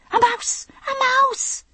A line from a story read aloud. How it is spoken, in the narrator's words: yelling like a banshee